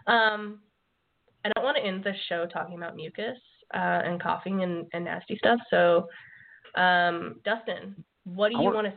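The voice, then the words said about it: Very hoarse voice. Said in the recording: “As you can tell by my voice this time... I'm very hoarse tonight because of all the coughing and hacking”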